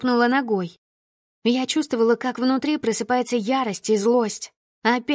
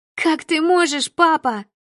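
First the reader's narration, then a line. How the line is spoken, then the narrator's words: Shout. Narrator (Russian): закричала я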